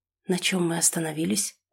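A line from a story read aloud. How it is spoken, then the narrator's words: Whisper. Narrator (Russian): прошептал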